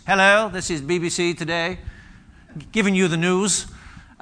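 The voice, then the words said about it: Posh BBC newsreader accent. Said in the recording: “we used to tune in to a BBC voice ... this wonderful accent would come on”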